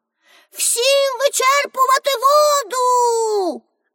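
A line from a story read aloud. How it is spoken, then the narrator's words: Shouting. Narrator (Ukrainian): Пеппі крикнула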